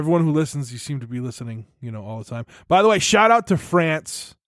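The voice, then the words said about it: New England American accent. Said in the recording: “my terrible New England American accent”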